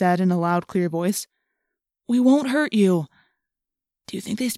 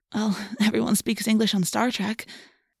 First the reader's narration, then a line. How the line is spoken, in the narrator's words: Cassie said with a nervous laugh